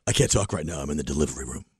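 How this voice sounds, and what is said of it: Impression of Tom on the phone. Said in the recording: “do a Tom impression ... I used to do an impression of him in the studio. You do a terrific one. ... I do Tom on the phone ... Here's Tom on the phone ... nailed it”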